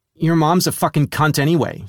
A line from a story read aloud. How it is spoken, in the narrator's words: she snarled